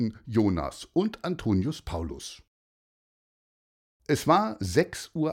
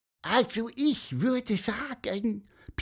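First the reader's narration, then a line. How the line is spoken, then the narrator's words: Squeaky, self-important, secretive. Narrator (German): piepste wichtig und geheimnistuerisch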